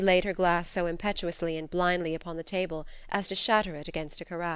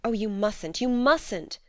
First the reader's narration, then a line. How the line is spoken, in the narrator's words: exclaimed Edna